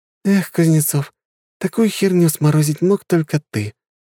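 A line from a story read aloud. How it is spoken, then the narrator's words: Sigh. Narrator (Russian): вздохнула она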